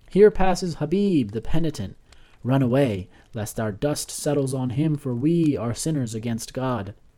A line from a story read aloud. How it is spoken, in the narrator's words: the children who had fled from him just a short while before now cried out